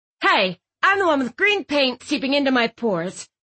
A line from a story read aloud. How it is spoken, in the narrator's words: Mom snapped